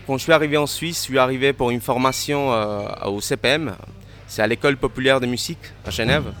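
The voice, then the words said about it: Slight Cuban accent in French. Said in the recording (French): “Vous avez un petit accent ... je suis d'origine cubaine ... voilà l'accent. J'arrive toujours pas à enlever.”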